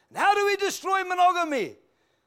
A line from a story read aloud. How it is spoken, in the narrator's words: cried out